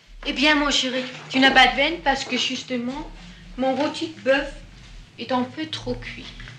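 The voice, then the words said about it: Danish accent in French. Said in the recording (French): “on entend bah, son accent, elle est née au Danemark”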